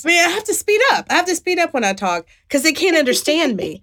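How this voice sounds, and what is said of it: West Virginia accent. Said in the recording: “I'm from West Virginia ... nobody can understand me ... I don't know how I haven't lost my accent”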